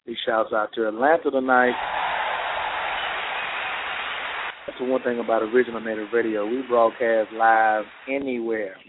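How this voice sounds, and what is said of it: Smooth, sexy radio voice. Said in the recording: “I got my grown and sexy voice on”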